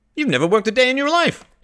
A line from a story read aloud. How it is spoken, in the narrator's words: he cried